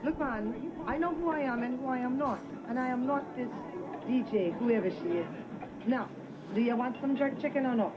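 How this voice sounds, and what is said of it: Jamaican accent drifting into British. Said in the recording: “Half that accent was British. Halfway in between, she went... from Jamaican or Antiguan. ... To goddamn London.”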